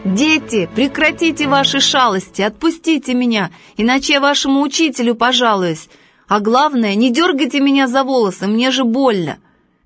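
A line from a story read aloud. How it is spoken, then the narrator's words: Shouting. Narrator (Russian): Он закричал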